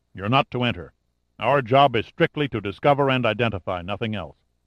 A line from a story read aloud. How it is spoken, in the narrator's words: Sandecker said coldly